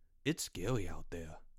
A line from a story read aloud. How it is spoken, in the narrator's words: Porch said in a low voice